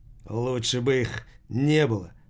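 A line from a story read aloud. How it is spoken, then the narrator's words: Muttered. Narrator (Russian): пробормотал Таштаголов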